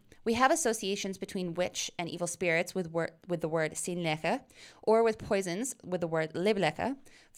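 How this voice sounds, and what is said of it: Attempted Old English pronunciation. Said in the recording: “my Old English accent. My Germanics are never as good as my Latinate.”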